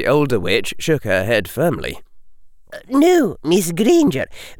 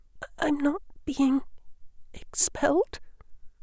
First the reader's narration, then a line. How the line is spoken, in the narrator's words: the girl whispered